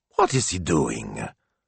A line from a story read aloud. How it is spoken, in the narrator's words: Signor Speranza had muttered